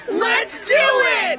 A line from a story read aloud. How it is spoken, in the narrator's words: shout in unison